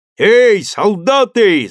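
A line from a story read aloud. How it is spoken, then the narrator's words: Shouting through cupped hands. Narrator (Russian): закричал Хохлач, приложив трубкой руки ко рту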